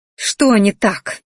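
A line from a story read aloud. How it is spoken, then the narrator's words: Angry growl, feeling rejected. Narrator (Russian): рыкнула злобно, чувствуя, что меня опять отвергли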